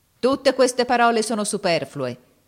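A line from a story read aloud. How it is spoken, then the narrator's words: Shouting. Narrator (Italian): gridò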